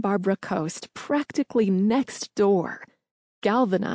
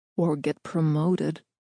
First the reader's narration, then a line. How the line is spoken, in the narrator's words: O'Connell interrupted in a barely audible tone